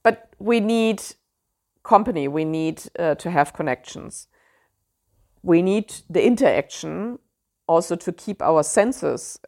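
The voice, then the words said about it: German accent in English. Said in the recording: “I know my German accent always comes through there”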